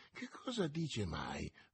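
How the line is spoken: Muttered. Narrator (Italian): borbottò Porthos

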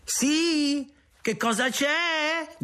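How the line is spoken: Group shouting. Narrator (Italian): gridano loro

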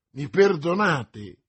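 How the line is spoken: Exclaimed. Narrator (Italian): esclamò D'Artagnan

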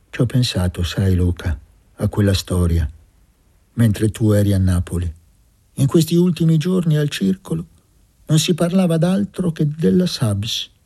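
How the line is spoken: Dull voice after vehemence. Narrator (Italian): Gesualdo, che aveva parlato con una foga insolita in lui, aggiunse con voce opaca

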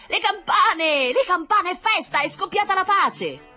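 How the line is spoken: Enemy soldier answering. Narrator (Italian): rispondeva quello dei nemici

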